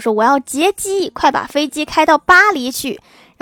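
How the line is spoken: Old man's sudden shout. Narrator (Chinese): 一个老头突然喊道

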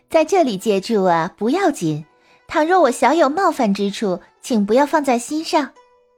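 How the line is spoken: Smiling. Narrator (Chinese): 狐女笑着说

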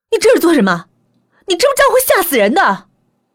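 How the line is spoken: Roaring. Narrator (Chinese): 我朝他吼道

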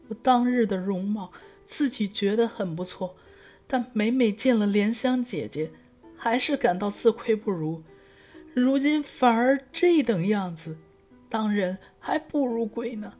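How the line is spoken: Girl sobbing loudly. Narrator (Chinese): 姑娘对着镜子大哭说

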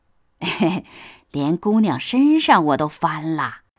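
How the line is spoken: Smug giggling. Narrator (Chinese): 王善保家的 嘻嘻笑道

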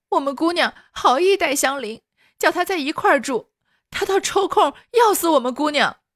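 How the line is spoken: Crying out, wailing. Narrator (Chinese): 宝蟾哭喊说

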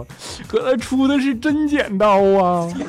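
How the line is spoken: Crying. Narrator (Chinese): 调调哭着说

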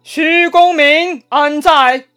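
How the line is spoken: Calling out a name. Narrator (Chinese): 这就是点名在叫徐晃了

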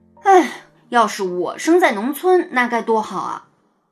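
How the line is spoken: Admiring. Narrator (Chinese): 雷天龙甚至忍不住赞叹说

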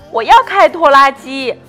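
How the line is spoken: Shouting. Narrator (Chinese): 鲁鲁大喊

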